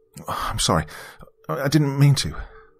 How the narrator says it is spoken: I stammered quickly

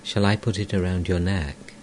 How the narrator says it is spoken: Amrita, tenderly

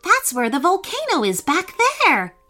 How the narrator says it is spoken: cried Brooke excitedly

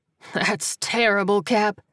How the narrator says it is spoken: he said, chuckling

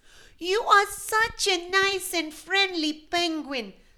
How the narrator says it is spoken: squeaked another one from behind

